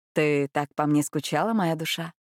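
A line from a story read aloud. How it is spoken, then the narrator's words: Tender question in Spanish. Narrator (Russian): виконт ласково спросил на испанском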